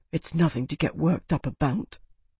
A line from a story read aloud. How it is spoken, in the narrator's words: He whispered